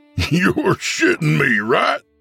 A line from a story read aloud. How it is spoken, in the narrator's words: said Bradley, laughing